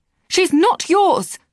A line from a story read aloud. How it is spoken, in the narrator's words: shouted again